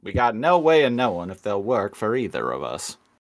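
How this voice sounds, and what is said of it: Character voice impression. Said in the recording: “pretty good Mouse impression”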